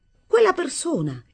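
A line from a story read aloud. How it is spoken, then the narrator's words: Brusque exclamation. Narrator (Italian): esclamai con bruschezza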